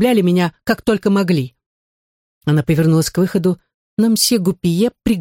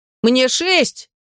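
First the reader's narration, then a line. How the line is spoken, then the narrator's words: Shouted. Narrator (Russian): крикнул Доменико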